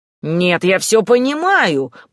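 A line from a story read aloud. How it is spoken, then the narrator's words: Grumbling. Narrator (Russian): продолжал ворчать кот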